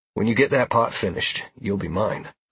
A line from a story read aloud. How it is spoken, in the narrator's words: I said